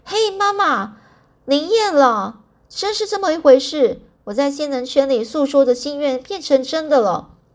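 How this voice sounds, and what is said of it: Long, shrill high-pitched voice. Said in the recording (Chinese): “用长而尖的声音说”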